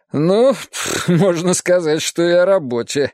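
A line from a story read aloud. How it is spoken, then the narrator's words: After laughing. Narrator (Russian): сказал, отсмеявшись, Вадим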